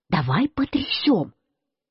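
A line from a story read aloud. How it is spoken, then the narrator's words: Quiet speech. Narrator (Russian): И я сказал Марусе тихонько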